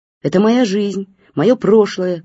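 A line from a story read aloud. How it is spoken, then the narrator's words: Shouting back. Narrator (Russian): кричала в ответ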